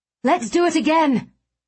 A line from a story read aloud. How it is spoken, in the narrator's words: I cried